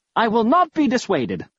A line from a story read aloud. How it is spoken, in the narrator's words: I exclaimed with forced bravado